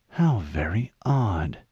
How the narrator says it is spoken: Halsey whispered

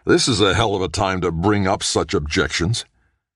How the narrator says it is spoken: angrily he practically snarled

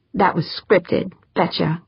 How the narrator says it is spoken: Holly muttered

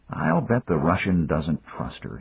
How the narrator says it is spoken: he muttered

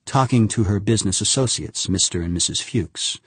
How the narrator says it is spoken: Fervord replied calmly

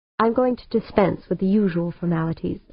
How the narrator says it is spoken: O'Banion said

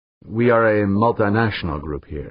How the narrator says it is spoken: Vertientes said, switching to British English, overlaid with a Castilian accent

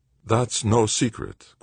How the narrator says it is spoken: Quintana said evenly

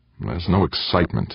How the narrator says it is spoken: Eberly grumbled

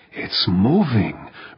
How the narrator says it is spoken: Urbane breathed

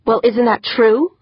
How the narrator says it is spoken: Holly snapped

